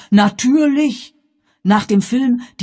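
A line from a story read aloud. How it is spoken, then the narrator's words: Calling out in reply. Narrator (German): rief nun seinerseits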